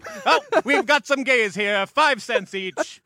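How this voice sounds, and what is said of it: Carnival barker voice. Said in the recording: “Anytime I try to do an accent of any kind, it sounds like a carnival barker.”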